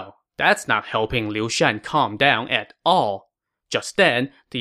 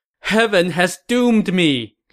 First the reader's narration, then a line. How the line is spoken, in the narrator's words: Liu Shan said as he broke into a loud wail